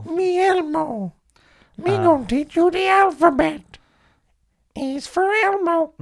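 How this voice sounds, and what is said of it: Elmo puppet character voice. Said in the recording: “a good Elmo impression... It's not terrible... Sadly, it's not a million miles away.”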